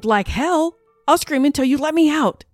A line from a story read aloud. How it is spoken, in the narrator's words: I screamed